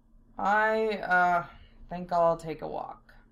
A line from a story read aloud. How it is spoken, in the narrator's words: Zell muttered